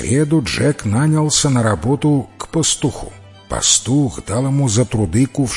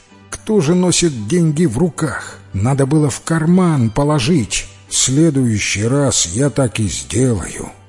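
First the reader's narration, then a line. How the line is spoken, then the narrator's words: Sighing. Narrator (Russian): вздохнул Джек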